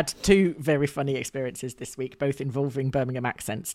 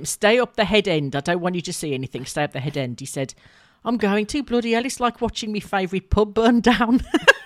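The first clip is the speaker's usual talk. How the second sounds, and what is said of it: Put-on Birmingham accent. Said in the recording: “I'm sorry for the accent, Birmingham people”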